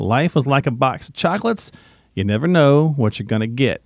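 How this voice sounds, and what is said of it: Southern accent. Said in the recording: “I can do that with a Southern accent, folks, because I'm from the South”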